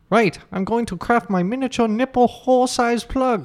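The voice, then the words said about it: Stereotyped Chinese accent. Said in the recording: “classic stereotypical Chinese man accent ... Why he's talking like this?”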